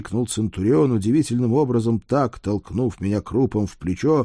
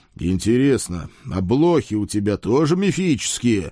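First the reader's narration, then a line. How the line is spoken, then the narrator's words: Loud question. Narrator (Russian): громко спросил я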